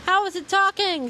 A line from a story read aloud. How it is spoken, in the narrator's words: Someone yelled